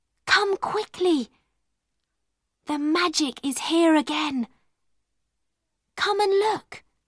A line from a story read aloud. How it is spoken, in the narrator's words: she whispered